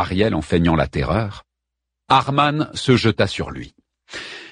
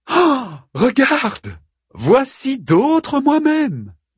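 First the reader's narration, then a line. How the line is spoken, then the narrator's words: Jovial. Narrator (French): dit-il d'une voix joviale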